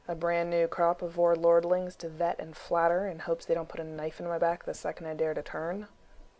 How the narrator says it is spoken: Gregor smiled grimly

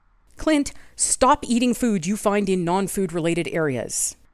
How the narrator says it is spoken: Steve said firmly

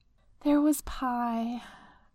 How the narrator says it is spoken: he says wistfully

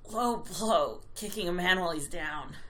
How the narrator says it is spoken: he grunted

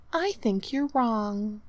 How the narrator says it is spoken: she sighed, like she was having a beatific vision

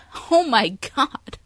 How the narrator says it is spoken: she interrupts, laughing

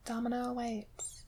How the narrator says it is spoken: whispered, too ashamed

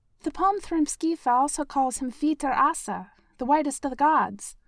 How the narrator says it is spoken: Shuri yelled, muffled, from a level below

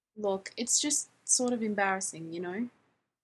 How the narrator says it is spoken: Jim sighed

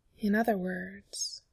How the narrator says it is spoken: Simon said very quietly

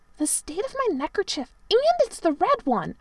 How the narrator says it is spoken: sulkily said

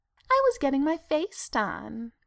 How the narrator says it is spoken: she purred

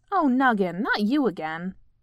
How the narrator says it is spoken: Polly said crossly

